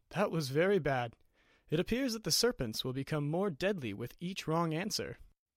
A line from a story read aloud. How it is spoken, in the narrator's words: Gelencio sighs and says